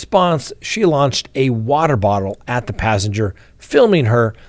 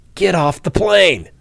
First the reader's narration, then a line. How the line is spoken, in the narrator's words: The argument then reaches a boiling point a passenger shouts